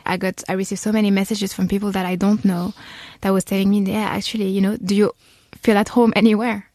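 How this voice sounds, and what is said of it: Strong French accent. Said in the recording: “you can see my French accent is so strong, so you can tell that I'm French”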